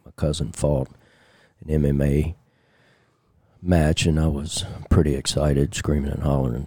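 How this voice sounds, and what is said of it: Hoarse, strained voice. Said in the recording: “My voice is kind of jacked up from last night ... my vocal cords are torn and bleeding”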